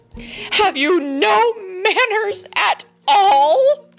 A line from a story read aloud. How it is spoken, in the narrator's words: cried their mother